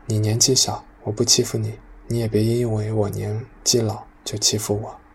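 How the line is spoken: Long sigh. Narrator (Chinese): 江俊鹤 长长的叹息

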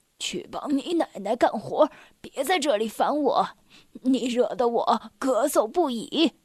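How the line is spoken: Old man, breathless complaining. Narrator (Chinese): 爷爷气喘吁吁的抱怨道

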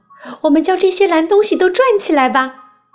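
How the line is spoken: Shouting. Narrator (Chinese): 我也喊道

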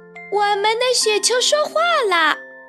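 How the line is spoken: Exclaiming. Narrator (Chinese): 小熊叫了起来

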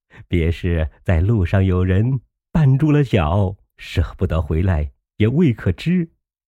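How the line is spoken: Laughing. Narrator (Chinese): 贾瑞笑道

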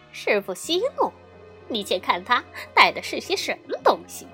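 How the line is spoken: Laughing. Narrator (Chinese): 悟空笑道

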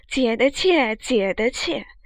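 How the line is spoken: Laughing. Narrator (Chinese): 执掌笑道

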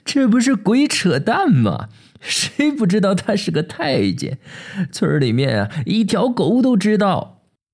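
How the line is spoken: Loud laughing shout. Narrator (Chinese): 老保长哈哈笑，提着大嗓门嚷个响亮

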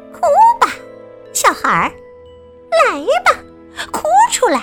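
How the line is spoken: Laughing whisper. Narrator (Chinese): 女巫一边笑一边小声的说

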